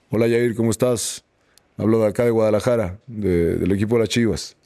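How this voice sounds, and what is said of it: Imitates another person's voice. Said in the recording (Spanish): “A ver si puedo hacer la voz.”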